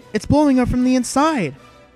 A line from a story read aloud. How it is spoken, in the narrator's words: the voice on the intercom exclaimed